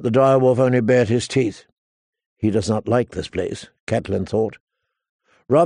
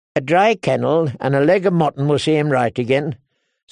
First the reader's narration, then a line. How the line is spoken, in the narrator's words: said Lothar cheerfully